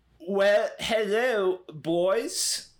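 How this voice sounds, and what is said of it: Poor attempt at British accent. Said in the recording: “trying to do a British accent. It's just Borat.”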